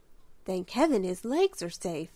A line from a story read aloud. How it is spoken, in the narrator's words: sighed Belle